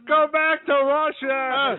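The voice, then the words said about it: Barney Gumble impression. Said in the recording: “That's a good impression. ... I could do Barney for days.”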